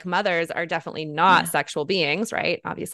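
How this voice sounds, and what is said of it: Sarcastic tone. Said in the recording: “i'm saying this sarcastically ... yes very sarcastically ... very sarcastically”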